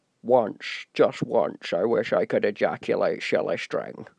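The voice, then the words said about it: Sean Connery impression, Scottish accent. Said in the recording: “I would read that again like Sean Connery ... my Scottish accents”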